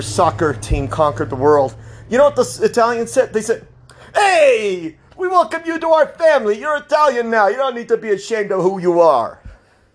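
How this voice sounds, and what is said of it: Put-on Italian accent. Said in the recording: “I'm doing a little bit of an Italian accent for emphasis here.”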